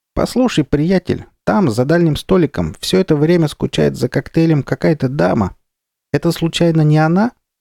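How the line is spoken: Cheerful squeak. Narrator (Russian): Моллюск Кривозуб весело пропищал

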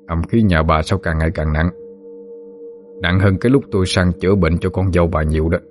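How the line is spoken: Tongue-click, then reply. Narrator (Vietnamese): khẽ chặt lưỡi một tiếng rồi mới trả lời

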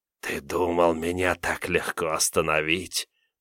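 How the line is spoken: Whisper. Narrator (Russian): прошептал Филин

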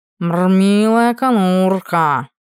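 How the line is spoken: Purred. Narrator (Russian): Промурлыкал он

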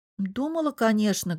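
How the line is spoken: Sad. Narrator (Russian): грустно отозвалась Лиза

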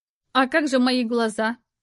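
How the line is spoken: Cold inquiry. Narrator (Russian): холодно осведомилась Лара

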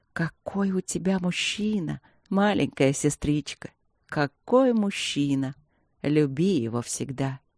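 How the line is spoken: Rapturous whisper. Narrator (Russian): восторженным шепотом добавила

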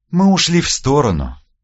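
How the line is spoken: Sighing. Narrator (Russian): вздохнула Вербицкая

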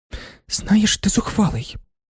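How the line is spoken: Hushed voice. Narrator (Ukrainian): притишеним голосом сказала панна Ізабелла

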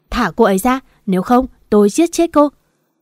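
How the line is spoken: Screaming. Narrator (Vietnamese): Nam đã lao tới bóc cổ Tạ Vân, gào lên

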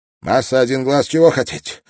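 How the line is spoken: Trembling voice. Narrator (Russian): дрожащим голосом спросил Вэн

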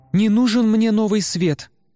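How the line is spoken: Exclaiming. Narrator (Russian): воскликнула Айне

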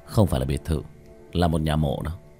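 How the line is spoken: Muttered. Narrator (Vietnamese): Chu Dài Hào lẩm bẩm

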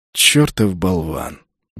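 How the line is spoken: Good-natured orc grumble. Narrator (Russian): беззлобно пробурчал орк

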